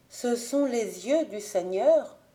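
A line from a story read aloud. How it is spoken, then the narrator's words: Murmured. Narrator (French): murmura-t-elle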